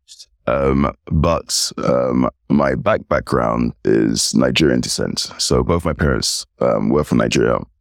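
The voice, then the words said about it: British English accent. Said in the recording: “you can hear from my accent. I'm British, English”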